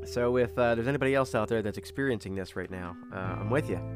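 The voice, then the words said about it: Slightly nasal, congested voice. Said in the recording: “allergies right now in my neighborhood, in my area, are terrible. So if I sound a little nasally, if I'm sniffly a lot”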